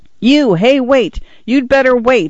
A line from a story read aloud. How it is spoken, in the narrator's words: he yelled